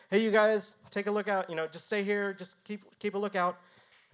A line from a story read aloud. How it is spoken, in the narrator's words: Sam and Steven yelled back